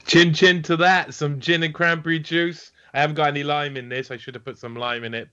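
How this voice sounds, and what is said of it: Welsh accent. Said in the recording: “I love your accent. Whereabouts in the UK, are you? ... in South Wales, so UK”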